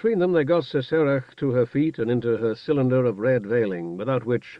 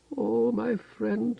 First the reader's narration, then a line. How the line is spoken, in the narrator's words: Sesarach murmured in Hardik